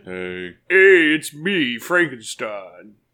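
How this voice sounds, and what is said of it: Flat monotone monster voice. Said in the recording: “Frankenstein is just like monotone.”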